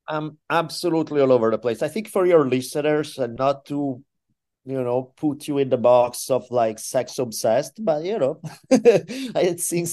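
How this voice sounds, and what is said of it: Heavy Italian accent. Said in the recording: “people speaking with the heavy Italian accent in your ear”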